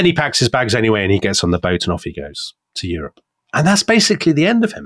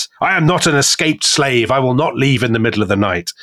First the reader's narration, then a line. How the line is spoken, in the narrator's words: very cross and he shouts at them and he says